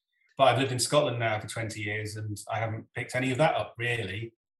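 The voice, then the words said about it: English accent, not Scottish. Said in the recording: “My accent is completely different from my mum's, which is completely different from my dad's, because they come from different parts. I blend between the two. And if I go back to where I came from in the north of England, my accent becomes more Northern English ... my accent hasn't become particularly Scottish”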